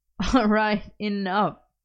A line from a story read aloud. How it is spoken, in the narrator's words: Merlin laughed